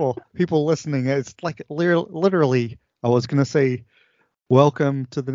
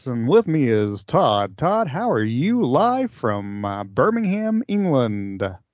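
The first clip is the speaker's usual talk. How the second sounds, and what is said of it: Exaggerated radio announcer voice. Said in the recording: “do this voice, radio voice,”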